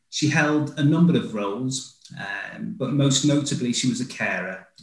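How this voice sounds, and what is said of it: Northern English Mancunian accent. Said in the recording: “I thought it was a Mancunian accent. It's nice to hear the Northern accent.”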